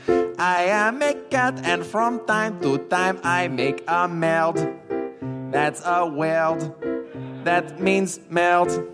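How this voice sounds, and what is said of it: Put-on French accent. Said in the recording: “I speak with an accent français. Cliché.”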